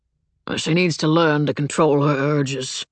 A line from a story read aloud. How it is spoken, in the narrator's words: William grumbled